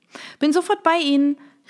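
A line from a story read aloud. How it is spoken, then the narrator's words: Cheerful call back. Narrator (German): rief Isabelle mit strahlendem Lächeln zurück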